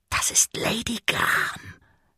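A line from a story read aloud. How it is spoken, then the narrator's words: Whispering. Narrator (German): flüsterte Dirk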